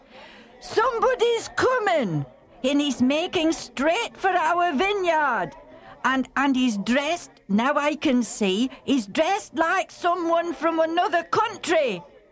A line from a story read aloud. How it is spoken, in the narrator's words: the man stationed on the watchtower called out to the busy tenant farmers